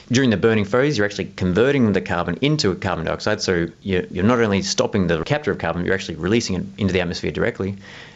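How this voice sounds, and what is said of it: Australian accent. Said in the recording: “in Southeast Australia. That's actually where I'm from. You might have noticed from my accent.”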